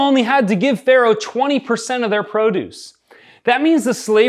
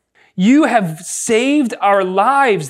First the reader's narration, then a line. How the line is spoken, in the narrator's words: exclaimed